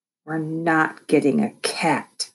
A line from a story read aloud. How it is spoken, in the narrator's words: I growled